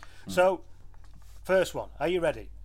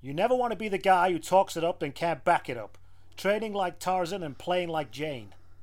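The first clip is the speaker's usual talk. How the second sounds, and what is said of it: Comedy American frat-boy accent. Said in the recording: “I'm going to do all of this in a comedy American frat pack attempt to do a comedy American frat pack accent”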